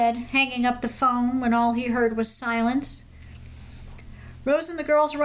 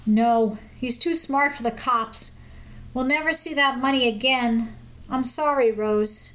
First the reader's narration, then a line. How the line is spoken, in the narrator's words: said softly